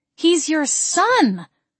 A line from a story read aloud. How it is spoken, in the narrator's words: I cried